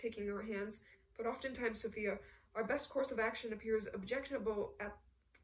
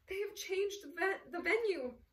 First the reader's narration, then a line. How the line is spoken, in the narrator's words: Sophia exclaimed out of breath